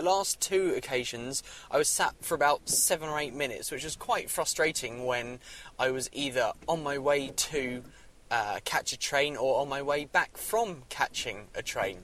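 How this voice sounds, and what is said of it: Gravelly, slightly hoarse voice. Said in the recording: “my voice sounds a little bit gravelly, that is because I've been spending all day talking to people, sometimes in a way that means I've had to be shouting a little bit”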